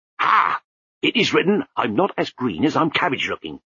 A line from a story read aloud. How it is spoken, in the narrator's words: snapped Lutzer